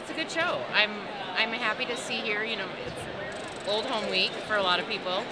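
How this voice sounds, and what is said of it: Minnesota accent. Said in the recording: “I want to hear that Minnesota accent ... Fargo”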